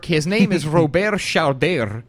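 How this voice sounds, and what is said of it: Put-on French accent. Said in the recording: “I like to add that French accent.”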